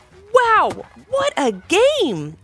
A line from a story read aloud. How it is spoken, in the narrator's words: exclaimed the Swarm's coach